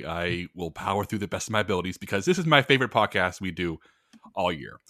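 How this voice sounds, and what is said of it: Rough voice, sounds unwell. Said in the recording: “I sound a little rough today, or if I start to sound rough throughout this episode. I am a little under the weather”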